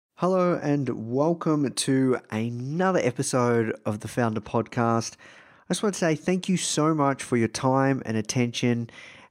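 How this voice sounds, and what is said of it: Soothing Australian accent. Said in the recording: “my soothing voice ... this Australian accent.”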